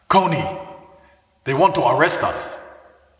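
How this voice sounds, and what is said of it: Put-on African accent. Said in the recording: “I'm gonna do my African accent now. I don't know if I can do it without laughing.”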